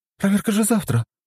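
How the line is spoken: Surprised young woman exclaiming. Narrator (Russian): удивленно воскликнула девушка

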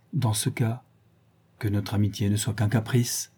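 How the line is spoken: Shy embarrassed murmur. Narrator (French): murmura-t-il, rougissant de sa propre audace

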